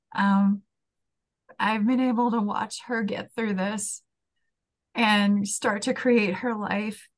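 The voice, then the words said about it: Teary, emotional voice. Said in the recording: “I'm getting a little teary”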